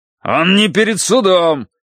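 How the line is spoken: Barked with rising heat. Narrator (Russian): рявкнул Грейтхаус нарастающим жаром

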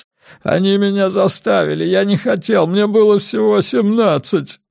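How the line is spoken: Sobbing. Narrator (Russian): зарыдал Лоуренс

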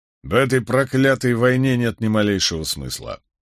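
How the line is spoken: Grumbling. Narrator (Russian): проворчал Барак

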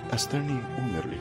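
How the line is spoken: Plain. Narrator (Russian): сказала она

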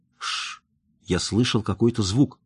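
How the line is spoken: Whisper. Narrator (Russian): прошептал он

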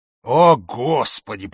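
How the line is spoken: Groan. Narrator (Russian): простонал я

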